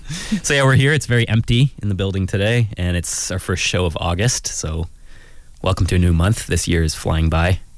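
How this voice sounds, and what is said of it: Congested voice with a cold. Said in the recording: “you're the one who sounds like you have a cold ... I do actually have a bit of a cold ... you can hear it in my voice”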